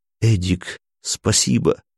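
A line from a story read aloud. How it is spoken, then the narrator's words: Whispered in ear. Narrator (Russian): Смирнов прошептав на ушко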